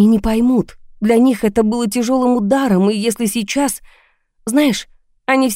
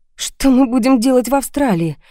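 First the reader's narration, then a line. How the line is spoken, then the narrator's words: Sighing. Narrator (Russian): вздохнула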